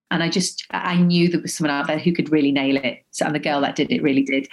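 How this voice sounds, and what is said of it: Mild Liverpool accent. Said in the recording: “she's just got my accent... Liverpool... It's not a totally strong accent”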